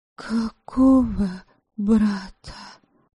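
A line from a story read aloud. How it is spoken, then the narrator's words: Barely audible shaky breath. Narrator (Russian): Еле слышно, не владея голосом, выдохнула Предслава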